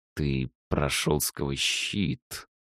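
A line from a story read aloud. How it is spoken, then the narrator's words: Hissing mage. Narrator (Russian): прошипел маг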